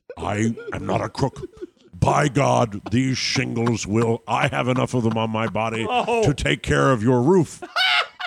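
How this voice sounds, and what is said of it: Richard Nixon impression. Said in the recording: “Richard Nixon.”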